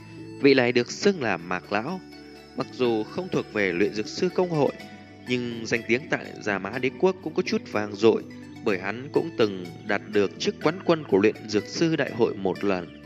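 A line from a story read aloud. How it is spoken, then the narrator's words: Smiling old man. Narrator (Vietnamese): mỉm cười, lão giả đầu tóc trắng như tuyết nói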